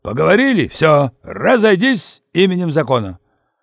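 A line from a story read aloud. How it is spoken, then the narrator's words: Loud bark. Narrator (Russian): Пандарей гаркнул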